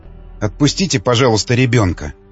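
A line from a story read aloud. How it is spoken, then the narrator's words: Quiet but firm. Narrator (Russian): тихо, но твердо сказала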